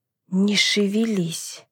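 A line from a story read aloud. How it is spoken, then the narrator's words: Silently mouthed. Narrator (Russian): одними губами выдохнула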